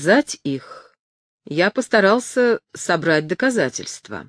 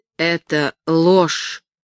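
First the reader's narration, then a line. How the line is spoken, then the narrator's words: Stammering. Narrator (Russian): произнес, наконец, Ремидж, запинаясь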